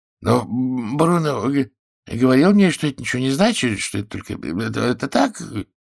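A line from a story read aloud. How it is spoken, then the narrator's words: Frightened mumbling. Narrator (Russian): бормотал напуганный Эллерс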